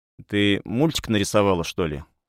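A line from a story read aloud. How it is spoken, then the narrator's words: Plain. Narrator (Russian): спросил я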